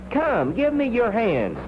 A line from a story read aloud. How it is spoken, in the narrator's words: cried the merry world